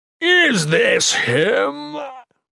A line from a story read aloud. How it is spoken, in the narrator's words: Mikik mocked